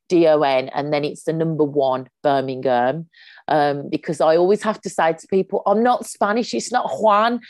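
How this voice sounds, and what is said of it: Strong Birmingham (Brummie) accent. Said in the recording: “I'm a Brummie ... my accent's so strong ... keep that accent.”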